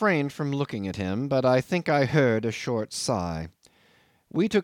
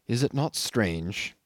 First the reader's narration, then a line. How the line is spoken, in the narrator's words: he went on in a gentle, almost yearning tone